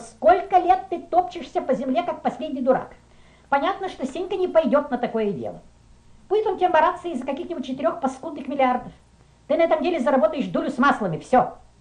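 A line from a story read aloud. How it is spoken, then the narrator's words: Woman shouting. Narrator (Russian): она закричала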